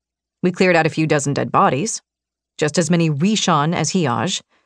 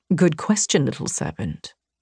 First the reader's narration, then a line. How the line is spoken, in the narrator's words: Vincent whispered